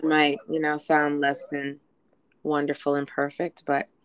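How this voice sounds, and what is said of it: Hoarse voice. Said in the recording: “I'm hoarse because I was really, really sick ... that's why I'm hoarse”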